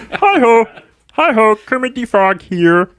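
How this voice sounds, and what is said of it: Kermit the Frog character voice. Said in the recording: “I wanted to try my Kermit impression.”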